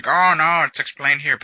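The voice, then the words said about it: Funny put-on voice. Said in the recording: “That was a funny voice you did.”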